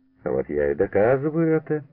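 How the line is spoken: Laughing. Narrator (Russian): засмеялся Лебедев

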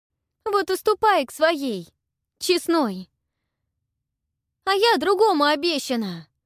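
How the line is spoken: Belated shout after someone. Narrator (Russian): Запоздало крикнула Ольга ему в спину

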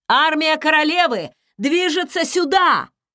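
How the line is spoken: Shouting. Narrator (Russian): прокричал

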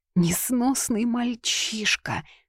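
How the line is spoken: Sighing. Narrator (Russian): вздохнула госпожа Утриш

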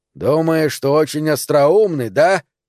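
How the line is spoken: Roared. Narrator (Russian): взревел док

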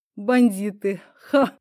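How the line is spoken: Short laugh. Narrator (Russian): хохотнул второй

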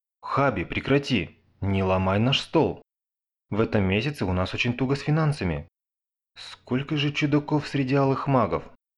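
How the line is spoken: Sigh. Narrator (Russian): Хейзабара вздохнул

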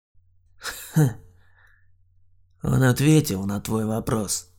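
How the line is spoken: Sad, smiling. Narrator (Russian): грустно улыбнулся Олег

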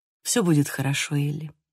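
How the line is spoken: Gentle. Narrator (Russian): мягко сказал

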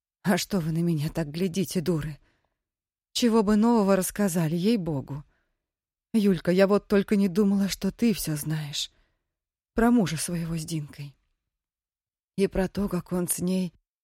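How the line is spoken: Gloomy sigh. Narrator (Russian): Вздохнув, хмуро произнесла

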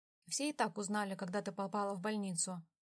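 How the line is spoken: Plain. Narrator (Russian): ответил он

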